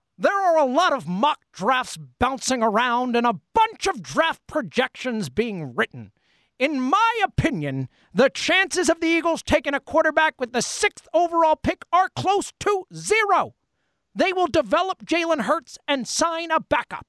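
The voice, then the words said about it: Imitates another person's voice. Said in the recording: “my version of Merrill Reese's voice, which is awful ... your Merrill Reese impression. I think you got the cadence down, definitely, like, spoke in his cadence, and the energy was there. The voice itself, I'd give about a 3 out of 10.”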